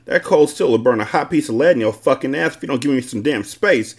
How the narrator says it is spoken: I yelled

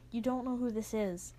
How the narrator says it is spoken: Jai says quietly

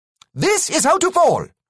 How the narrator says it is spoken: he shouted again

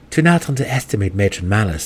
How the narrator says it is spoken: he said grimly

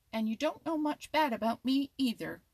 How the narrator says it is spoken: retorted Happy Jack sharply

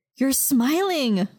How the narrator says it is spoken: Maya exclaimed

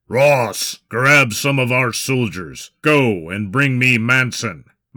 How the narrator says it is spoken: Maximus growled

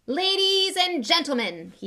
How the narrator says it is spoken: he said loudly

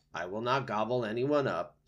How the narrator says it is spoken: said Roz

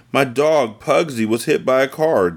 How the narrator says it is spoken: Dana cried

